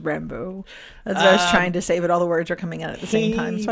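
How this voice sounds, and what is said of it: Usual voice. Nothing is said of it.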